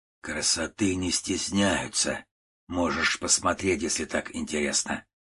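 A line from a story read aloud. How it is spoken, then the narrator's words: Hoarse, old man's voice. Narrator (Russian): ответил коротышка, и это был уже не детский голос, а хриплый, почти стариковский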